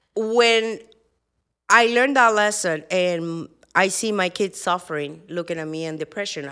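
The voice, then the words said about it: Speaks with a foreign accent. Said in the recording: “I got an accent”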